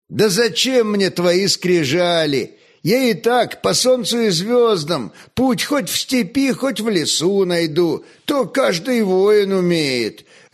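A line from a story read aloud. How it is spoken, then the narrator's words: Laughing. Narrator (Russian): рассмеялся Кандыба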